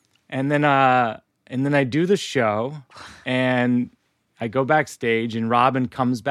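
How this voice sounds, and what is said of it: Usual voice. Nothing is said of it.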